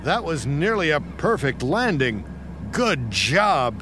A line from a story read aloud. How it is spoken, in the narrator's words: shouted the air traffic controller